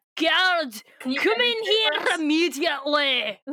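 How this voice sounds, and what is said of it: Bad fake Scottish accent. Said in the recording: “doing an impression of Visser 3 ... he does a really shitty Scottish accent”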